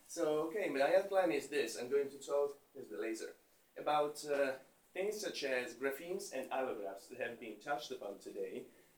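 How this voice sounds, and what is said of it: English with an Italian accent. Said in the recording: “I speak English with an Italian accent”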